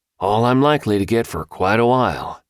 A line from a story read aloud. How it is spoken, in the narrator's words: sighing deeply